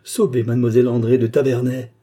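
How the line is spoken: Distant cry from crowd. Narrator (French): cette voix qui, comme celle de la Bible, criait des profondeurs de la foule

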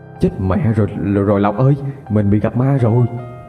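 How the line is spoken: Stammering. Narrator (Vietnamese): Anh lắp bắp

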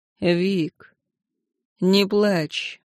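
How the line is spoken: Lifeless voice. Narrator (Russian): произнес он безжизненным голосом

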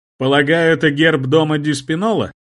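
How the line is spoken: Loud address. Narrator (Russian): Громко обратился я к старику

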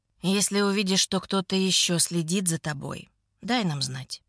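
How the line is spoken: Plain. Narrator (Russian): говорит он

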